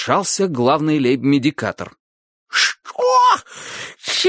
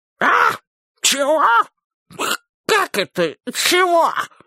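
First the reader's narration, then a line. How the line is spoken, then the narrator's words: Hoarse, wheezing. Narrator (Russian): хрипит король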